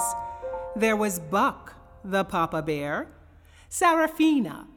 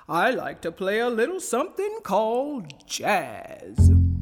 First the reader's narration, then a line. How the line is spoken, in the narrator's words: said Papa Bear in a deep bass voice